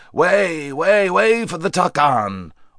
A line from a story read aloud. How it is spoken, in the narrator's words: a loud voice shouted out